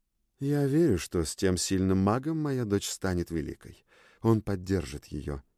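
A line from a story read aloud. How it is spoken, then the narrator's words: Quiet queen. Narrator (Russian): тихо сказала королева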